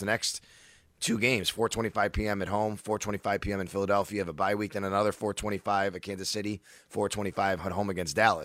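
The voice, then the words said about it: Tired, worn-out voice. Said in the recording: “as you can probably tell from my voice, I'm feeling it”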